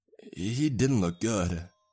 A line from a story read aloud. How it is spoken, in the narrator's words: Jack stammers